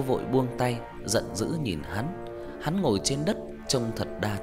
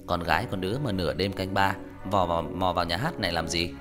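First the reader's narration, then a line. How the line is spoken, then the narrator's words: Sneering, mocking. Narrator (Vietnamese): Hắn cười nhạt rồi châm chọc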